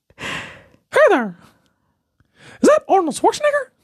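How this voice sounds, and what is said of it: Mickey Mouse cartoon voice. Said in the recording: “Mickey Mouse?”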